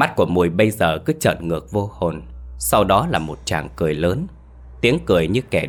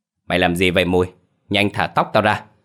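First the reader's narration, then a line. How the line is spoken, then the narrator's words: Shouting. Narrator (Vietnamese): Mai quát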